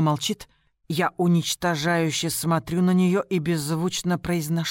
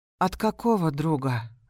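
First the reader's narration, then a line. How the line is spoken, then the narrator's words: Tired and irritated. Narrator (Russian): звучит устало и раздраженно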